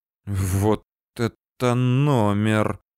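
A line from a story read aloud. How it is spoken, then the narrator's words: Breathless exhale. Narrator (Russian): выдохнул я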